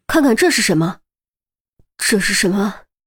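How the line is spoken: Deep stern voice. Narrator (Chinese): 沉声道

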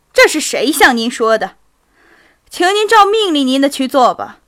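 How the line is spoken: Loud and angry. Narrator (Chinese): 库图佐夫愤怒的大声地说

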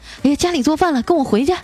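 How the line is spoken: Woman shouting. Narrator (Chinese): 一个女的 喊

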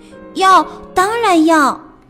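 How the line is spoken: Happy loud shout. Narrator (Chinese): 安迪高兴地大声喊道

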